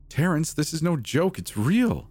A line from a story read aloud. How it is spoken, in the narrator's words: Maya exclaimed